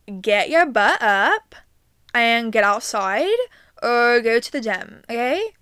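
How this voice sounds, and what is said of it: Unidentifiable put-on accent. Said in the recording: “I don't even know what accent that was”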